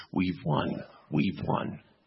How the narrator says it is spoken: the secular critics sit like two toads on the bank of a muddy pond croaking

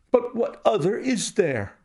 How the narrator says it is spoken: cried the banker with a gesture of despair

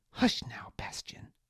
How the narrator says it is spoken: Liana murmured

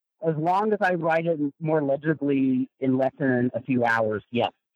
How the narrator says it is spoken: laughs and says

